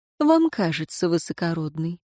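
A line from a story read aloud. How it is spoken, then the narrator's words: Calm reply. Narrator (Russian): спокойно ответила Лиари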